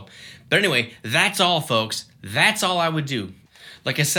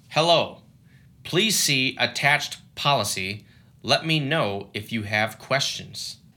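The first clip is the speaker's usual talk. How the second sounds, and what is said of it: Flat robotic voice. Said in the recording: “That was my robot impression.”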